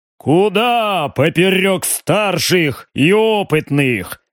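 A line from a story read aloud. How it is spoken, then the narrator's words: Deep bass voice. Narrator (Russian): пробасил барон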